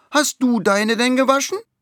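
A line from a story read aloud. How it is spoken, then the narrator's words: Calling out. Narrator (German): ruft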